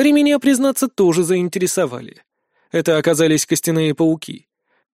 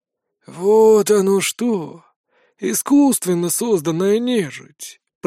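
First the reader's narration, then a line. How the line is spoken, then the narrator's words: Drawn-out ghostly voice. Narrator (Russian): протянул призрак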